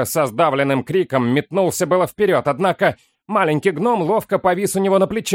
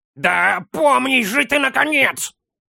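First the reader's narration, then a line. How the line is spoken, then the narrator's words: Bark right in ear. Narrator (Russian): рявкнул Строри в самое ухо хоббиту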